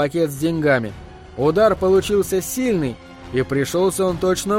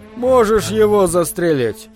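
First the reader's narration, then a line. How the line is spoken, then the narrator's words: Bored voice. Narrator (Russian): сказал скучным голосом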